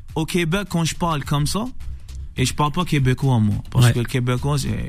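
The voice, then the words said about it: Slight Algerian accent in French. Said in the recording (French): “avec un petit accent comme ça, algérien”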